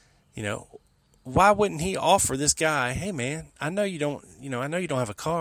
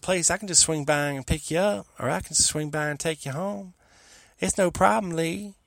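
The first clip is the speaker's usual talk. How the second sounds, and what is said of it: Imitates another person's voice. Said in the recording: “my Buell Frazier impression's creeping out again”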